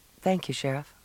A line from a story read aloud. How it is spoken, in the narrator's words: she said